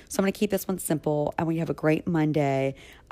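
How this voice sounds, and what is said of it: Slightly hoarse voice. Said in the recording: “my voice is a little hoarse already this morning”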